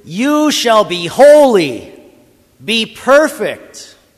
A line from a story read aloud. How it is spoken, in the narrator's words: he yells at you